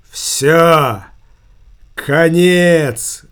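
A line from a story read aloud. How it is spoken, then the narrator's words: Loud. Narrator (Russian): громко произнес Верзила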